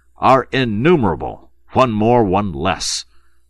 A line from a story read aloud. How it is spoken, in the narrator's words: thundered General Feraud